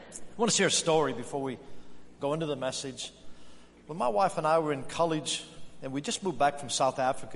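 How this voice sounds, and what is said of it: Australian-influenced American English accent. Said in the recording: “that is not an Albert Lea, Minnesota accent. True. That's called 20 years living in Australia.”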